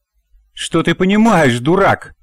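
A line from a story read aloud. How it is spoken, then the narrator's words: Angry scream. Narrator (Russian): заорала на мужа Надя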